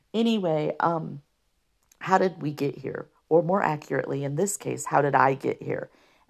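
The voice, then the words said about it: Rough, hoarse voice. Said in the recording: “I know I'm sneezing and my voice sounds rough, but it's allergies.”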